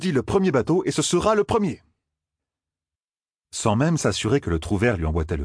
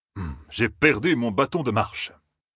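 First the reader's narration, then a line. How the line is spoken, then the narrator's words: Grumble. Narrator (French): grommela-t-il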